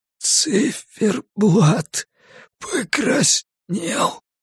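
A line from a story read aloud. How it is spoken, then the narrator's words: Hoarse wheeze, then coughing. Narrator (Russian): просипел лежащий на полу мужчина и закашлялся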